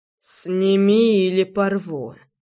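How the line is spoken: Hoarse rasp. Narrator (Russian): прохрипел Роман

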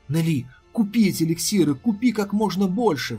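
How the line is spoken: Agitated exclamation. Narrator (Russian): взволнованно воскликнул глава клана Тяньхэнь

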